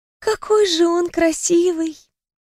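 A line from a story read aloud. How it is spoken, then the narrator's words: Sighing. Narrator (Russian): вздохнула Даяна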